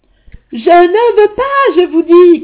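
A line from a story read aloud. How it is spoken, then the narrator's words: Shout. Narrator (French): cria-t-il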